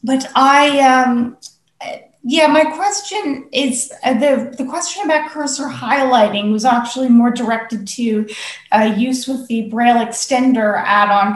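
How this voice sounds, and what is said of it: American English accent. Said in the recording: “as you can probably tell from my accent, I'm in the United States”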